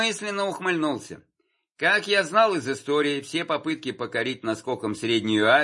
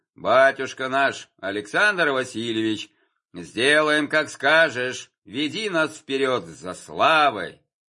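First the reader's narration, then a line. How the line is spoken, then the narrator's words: Deep bass voice. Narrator (Russian): Милорадович пробасил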